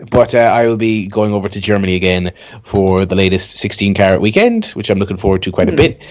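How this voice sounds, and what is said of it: Usual voice. Nothing is said of it.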